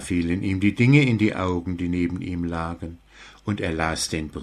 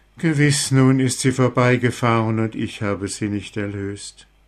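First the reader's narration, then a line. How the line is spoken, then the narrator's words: Deeply sad. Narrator (German): der Mann ward von Herzen traurig und sprach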